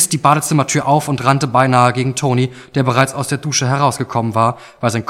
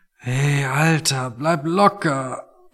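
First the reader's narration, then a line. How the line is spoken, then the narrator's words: Quiet, strained voice. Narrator (German): meinte Toni und sprach leise, weil jedes Geräusch einfach noch zu viel für ihn war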